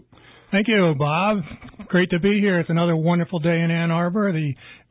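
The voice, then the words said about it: Froggy, hoarse voice. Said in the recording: “he's a little froggy ... His voice got... Probably allergy”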